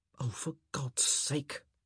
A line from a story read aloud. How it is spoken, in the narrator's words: he muttered